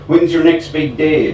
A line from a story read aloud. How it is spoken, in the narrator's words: I shouted